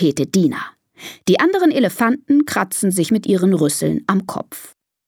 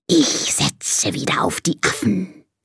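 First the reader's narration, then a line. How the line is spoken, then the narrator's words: Hissing. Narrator (German): zischt die Schlange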